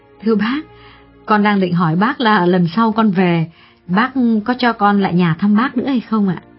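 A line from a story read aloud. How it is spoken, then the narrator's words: Smiling reply. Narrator (Vietnamese): Xuyến mỉm cười đáp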